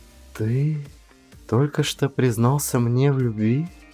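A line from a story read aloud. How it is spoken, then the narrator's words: Whisper. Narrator (Russian): прошептала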